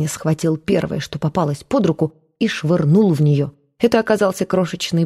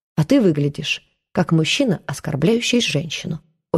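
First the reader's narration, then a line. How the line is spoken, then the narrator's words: Very calm. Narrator (Russian): очень спокойно сказала Маша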